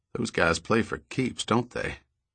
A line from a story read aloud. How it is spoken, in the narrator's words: Lowering his voice, he added